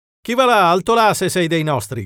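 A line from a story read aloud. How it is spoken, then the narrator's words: Shouting. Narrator (Italian): gridò Bennett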